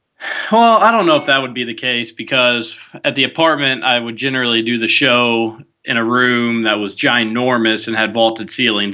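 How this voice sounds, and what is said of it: Slightly raspy voice. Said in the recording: “You sound a little different... Maybe my voice just sounds different because I'm a little raspy.”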